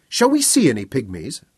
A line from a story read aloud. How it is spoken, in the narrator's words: Bonnie demanded eagerly